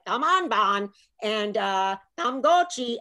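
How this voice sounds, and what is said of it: Sing-songy imitated Vietnamese accent. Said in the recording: “I try to imitate the Vietnamese accent, and it's very sing-songy”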